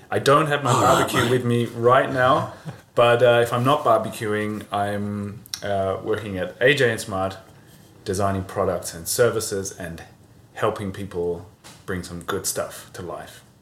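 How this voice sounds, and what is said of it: Australian accent. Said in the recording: “people are going to be confused about the accents ... I'm from Australia”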